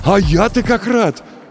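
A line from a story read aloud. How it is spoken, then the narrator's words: Exclaiming. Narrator (Russian): воскликнул он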